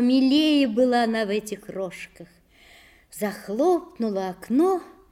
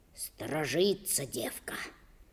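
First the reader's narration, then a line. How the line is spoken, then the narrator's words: Whisper. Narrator (Russian): прошептал Алексашка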